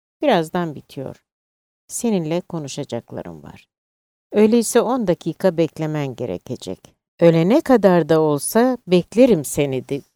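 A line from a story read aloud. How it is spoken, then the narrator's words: Laughing. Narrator (Turkish): dedi gülerek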